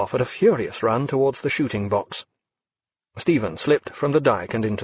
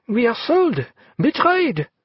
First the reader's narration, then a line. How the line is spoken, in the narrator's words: A moment's stunned silence, and Leclerc cried